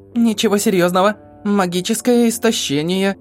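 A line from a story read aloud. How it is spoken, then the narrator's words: Confused. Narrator (Russian): растерянно сообщила она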